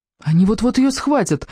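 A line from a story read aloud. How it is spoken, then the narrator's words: Frightened exclamation. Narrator (Russian): воскликнул лунный диск в испуге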